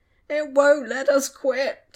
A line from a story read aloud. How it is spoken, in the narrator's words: Tom whined